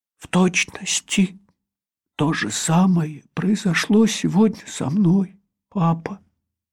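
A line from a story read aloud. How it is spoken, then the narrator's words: Barely audible whisper. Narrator (Russian): Герман еле слышно прошептал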